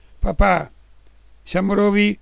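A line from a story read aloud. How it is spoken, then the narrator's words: Girl shouts. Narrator (Italian): la ragazza gridò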